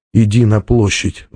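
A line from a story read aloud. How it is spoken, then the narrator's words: Silent inner plea. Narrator (Russian): взмолился он мысленно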